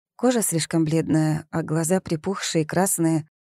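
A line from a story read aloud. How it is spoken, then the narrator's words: Sighing. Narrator (Russian): вздохнула Зои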